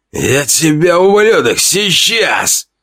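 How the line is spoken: Hoarse wheezing threat. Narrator (Russian): Просипел он

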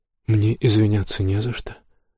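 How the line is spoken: Calm. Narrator (Russian): спокойно сказала она

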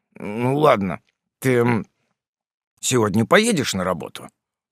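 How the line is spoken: Mumble. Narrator (Russian): промямлил Фрем

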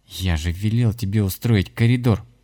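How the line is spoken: Angry whisper. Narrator (Russian): зло прошептал Коля в воздух

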